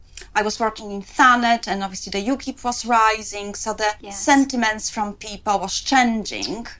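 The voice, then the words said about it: Foreign accent, described as harsh. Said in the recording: “maybe it's your accent because it sounds quite harsh ... I possibly will always speak with an accent”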